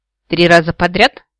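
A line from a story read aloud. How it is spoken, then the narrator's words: Skeptical grunt. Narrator (Russian): скептически хмыкнул Тия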